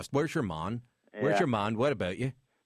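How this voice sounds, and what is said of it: Belfast Irish accent. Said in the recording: “See, that's Belfast, right?”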